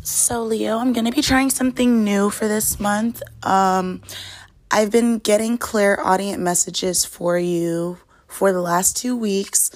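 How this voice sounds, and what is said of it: Slightly hoarse voice. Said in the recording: “apologize for my voice. It is a little bit hoarse.”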